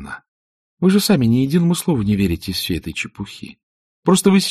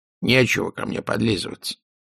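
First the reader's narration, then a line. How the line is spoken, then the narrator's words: Old woman grumbling. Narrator (Russian): проворчала старая хозяйка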